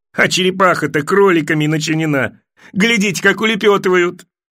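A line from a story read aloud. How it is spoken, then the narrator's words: Joyful yell. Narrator (Russian): Атлас радостно заорал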